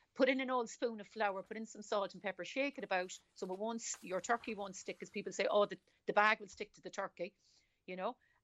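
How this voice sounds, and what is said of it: Irish Cork accent. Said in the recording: “I'm picking up a Cork accent, am I? ... that's a Cork accent.”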